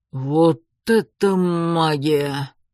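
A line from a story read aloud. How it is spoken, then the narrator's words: Enchanted breathless exhale. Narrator (Russian): зачарованно выдохнул бригадир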